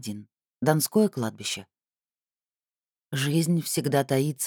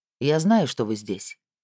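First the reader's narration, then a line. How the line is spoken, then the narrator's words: Calm spirit voice. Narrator (Russian): спокойно произнес дух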